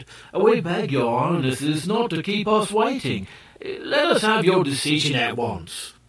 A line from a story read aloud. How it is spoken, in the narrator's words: the Ki Ki grew impatient and exclaimed